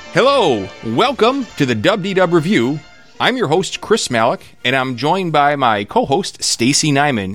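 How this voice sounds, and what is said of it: Big announcer voice. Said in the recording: “big announcer voice? I feel like I've got big announcer voice”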